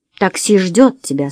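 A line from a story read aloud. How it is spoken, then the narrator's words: Plain. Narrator (Russian): сказал Уэсли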